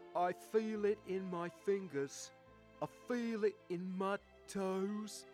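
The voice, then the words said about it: Imitates another person's voice. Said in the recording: “Best Bill Nighy impression you've ever heard, I'm sure.”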